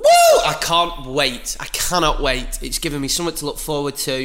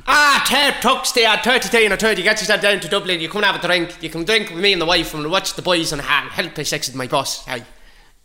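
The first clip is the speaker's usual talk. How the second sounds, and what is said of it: Put-on Dublin Irish accent. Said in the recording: “I'll do an accent for each one ... Dublin”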